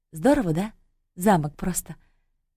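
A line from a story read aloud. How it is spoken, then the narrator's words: Quiet, sighing. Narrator (Russian): Таня вздохнула и тихо сказала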